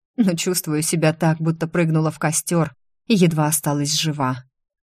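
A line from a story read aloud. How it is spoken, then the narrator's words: Hoarse. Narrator (Russian): прохрипела я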